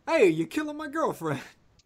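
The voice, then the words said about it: Attempted Fonz impression. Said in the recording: “a good Fonz impersonation ... I can't do a Fonz impression.”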